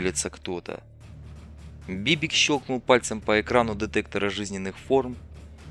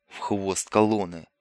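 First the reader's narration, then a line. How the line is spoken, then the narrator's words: Slightly irritated demand. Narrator (Russian): Чуть раздраженно потребовал Бибик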